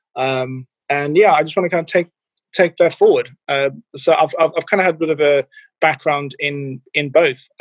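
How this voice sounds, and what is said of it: Slightly diluted South African accent. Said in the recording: “your accent isn't an English accent ... I'm originally from South Africa, from Cape Town ... I've got a bit of an accent, but it is slightly diluted”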